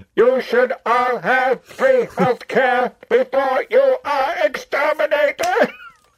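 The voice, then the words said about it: Dalek-style robotic voice. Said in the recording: “if the Dalek took over Bernie Sanders?”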